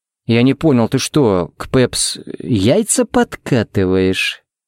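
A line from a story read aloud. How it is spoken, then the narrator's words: Menacing drawl. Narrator (Russian): протянул он угрожающе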